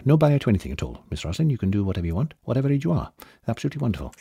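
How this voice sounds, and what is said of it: Gentle imitation of another person's voice. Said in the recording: “my favourite impression. Doesn't work because it's too gentle.”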